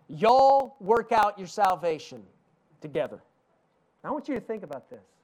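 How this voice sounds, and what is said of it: Southern US East Tennessee accent. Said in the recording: “Southern United States. That's where I'm from. I don't know if you can tell from the accent ... I grew up in East Tennessee ... our English dialect”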